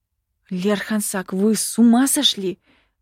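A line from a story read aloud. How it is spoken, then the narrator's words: Hissing. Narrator (Russian): зашипела я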